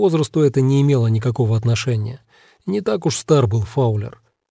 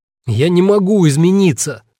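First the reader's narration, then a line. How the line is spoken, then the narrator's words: Desperate shout. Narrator (Russian): в отчаянии выкрикнул он Норману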